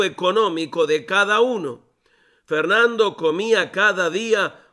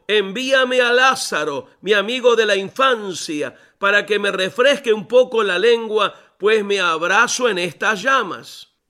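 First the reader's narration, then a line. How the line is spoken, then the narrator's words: Shouting from below. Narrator (Spanish): gritó desde abajo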